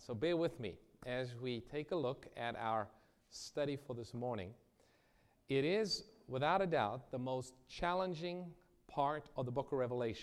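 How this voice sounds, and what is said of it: Hoarse voice from a cold. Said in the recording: “my voice is a little bit kind of under the weather. I've been fighting with a cold this week”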